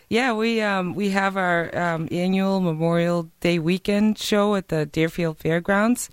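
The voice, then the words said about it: Hoarse, partly lost voice. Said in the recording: “My voice is a little gone”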